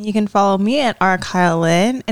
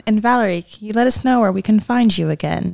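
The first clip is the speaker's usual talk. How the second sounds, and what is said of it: Soft, gentle voice. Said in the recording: “You're doing the soft voice.”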